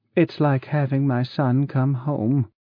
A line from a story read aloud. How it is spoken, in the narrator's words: said gently